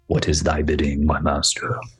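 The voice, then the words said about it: Accurate impression of the Emperor's voice. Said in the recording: “That's a great impression. ... That's not bad, right? That wasn't bad. ... I think that was dead on.”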